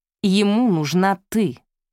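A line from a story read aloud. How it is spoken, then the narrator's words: Plain. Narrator (Russian): ответил Мэтью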